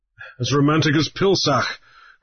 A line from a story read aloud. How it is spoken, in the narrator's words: Grief laughed